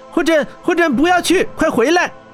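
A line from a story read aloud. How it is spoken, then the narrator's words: Worried shout. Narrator (Chinese): 小艾关切地喊道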